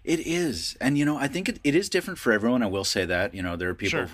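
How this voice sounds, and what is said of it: Usual voice. Nothing is said of it.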